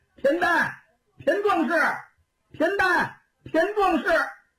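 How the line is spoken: Repeated shouting. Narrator (Chinese): 喊了那么几嗓子

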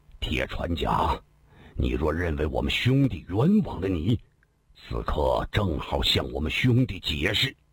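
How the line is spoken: Slow, measured. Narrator (Chinese): 一名虎缓缓说道

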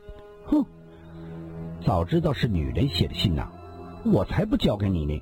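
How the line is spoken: Pouting girl, low voice. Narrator (Chinese): 小姑娘嘟起了嘴，低声地说道

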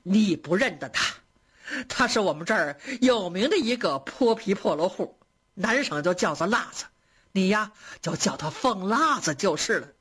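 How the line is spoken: Laughing. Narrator (Chinese): 贾母 笑着说

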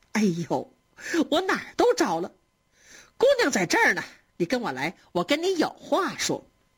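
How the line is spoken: Laughing. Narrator (Chinese): 鸳鸯的嫂子 笑着跟他说

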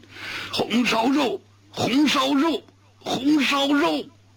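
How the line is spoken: Grief-stricken forceful rhythmic shouting. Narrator (Chinese): 周汉悲愤地，铿锵有力地击节呐喊

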